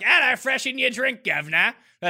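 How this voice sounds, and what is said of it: Bad put-on Cockney British accent. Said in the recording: “I can start doing bad British accents ... I only have like the Cockney ... That's more of my British style accent.”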